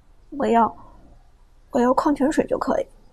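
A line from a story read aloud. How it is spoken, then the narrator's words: Polite, quiet. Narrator (Chinese): 马海龙稍微客气一些，小声道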